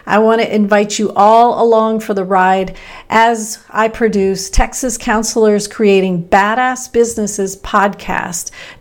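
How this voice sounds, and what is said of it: Midwestern American accent. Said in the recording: “I'm this Texan Midwesterner ... I thought I lost my Midwestern accent, but I can hear it right now”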